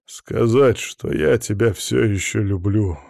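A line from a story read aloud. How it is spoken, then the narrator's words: Muffled voice. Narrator (Russian): сказал он глухо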